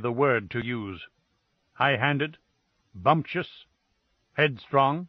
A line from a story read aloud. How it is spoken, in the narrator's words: said icily